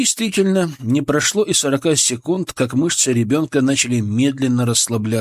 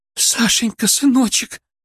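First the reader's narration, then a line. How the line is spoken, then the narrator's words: Sobbing with relief. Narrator (Russian): Женщина разрыдалась, на этот раз от облегчения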